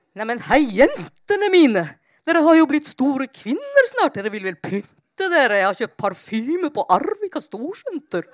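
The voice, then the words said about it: Enthusiastic broken Icelandic-accented Norwegian. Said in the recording (Norwegian): “Veldig entusiastisk og islending og veldig søt, gebrokken dialekt.”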